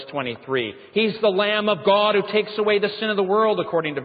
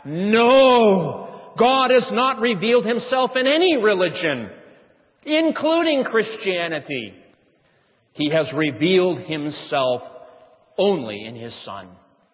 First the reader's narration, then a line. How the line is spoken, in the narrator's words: in the erudite Swiss accent of Barth, he thundered back